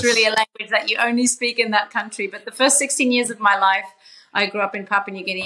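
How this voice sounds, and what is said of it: Australian accent. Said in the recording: “my Aussie twang”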